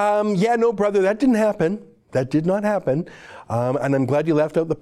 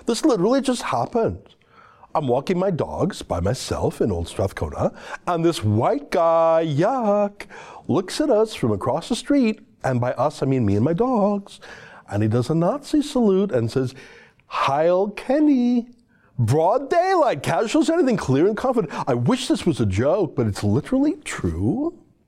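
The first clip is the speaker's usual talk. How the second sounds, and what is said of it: Imitates another person's voice. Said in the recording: “in my Miles McInnes voice”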